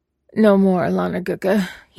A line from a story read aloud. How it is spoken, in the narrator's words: he mumbled, the words slurring slightly